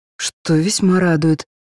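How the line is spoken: Sighing, muttered under breath. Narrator (Russian): вздохнув, пробормотала себе под нос

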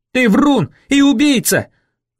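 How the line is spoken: Yelling at top volume. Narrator (Russian): заорал я во всю глотку

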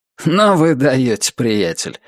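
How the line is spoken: Amused snort. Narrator (Russian): хмыкнул Альберт

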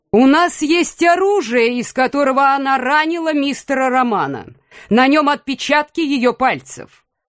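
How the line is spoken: Prosecutor shouting. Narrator (Russian): Прокурор округа выкрикнул

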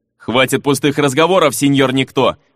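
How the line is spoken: Growled. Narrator (Russian): прорычал Фернан

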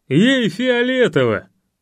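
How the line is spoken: Laughing. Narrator (Russian): засмеялся Олег

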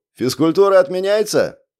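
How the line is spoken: Shouted. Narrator (Russian): крикнул кто-то

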